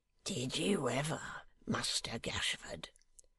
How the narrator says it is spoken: whispered Dennis, with a horrible kind of admiration, such as that with which a cannibal might regard his intimate friend when hungry

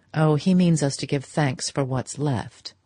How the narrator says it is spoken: her hostess dryly rejoined

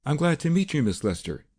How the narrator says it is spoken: he said in a high, harsh voice that had just the trace of a foreign accent

